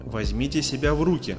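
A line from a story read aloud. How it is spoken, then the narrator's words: Plain. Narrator (Russian): сказал Грейнджер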